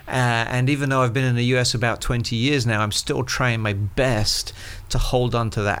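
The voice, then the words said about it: English accent. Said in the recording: “I consider home a town called Colchester, which is about an hour northeast of London ... accent ... you sound so much more cool than the rest of us. But that accent is amazing.”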